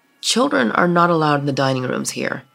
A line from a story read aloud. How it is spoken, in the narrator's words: he replied